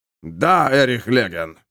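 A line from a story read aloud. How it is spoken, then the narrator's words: Man growling. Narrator (Russian): прорычал мужик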